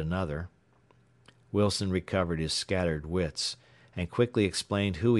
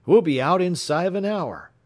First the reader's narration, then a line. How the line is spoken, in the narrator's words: cried one